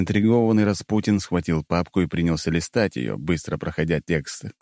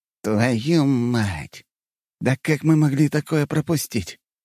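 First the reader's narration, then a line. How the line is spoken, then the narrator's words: Hoarse voice. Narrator (Russian): Его голос стал хриплым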